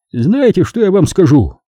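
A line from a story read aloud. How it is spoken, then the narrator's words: Cheerful. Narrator (Russian): весело поглядывая, произнес он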